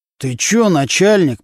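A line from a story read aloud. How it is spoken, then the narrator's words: Through gritted teeth. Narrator (Russian): процедил сквозь зубы Нечипаренко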